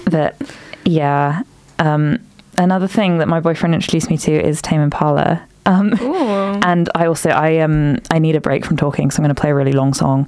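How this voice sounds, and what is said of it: Unusually deep congested voice. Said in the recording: “I'm talking really deep. You notice my voice is really deep today... hay fever”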